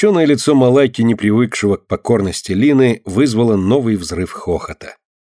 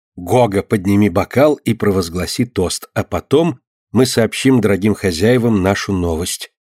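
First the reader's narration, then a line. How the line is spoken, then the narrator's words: Soft whisper. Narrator (Russian): тихонько шепнула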